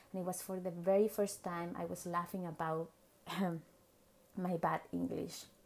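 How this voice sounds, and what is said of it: Non-native English accent. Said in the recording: “I know you can tell I have an accent”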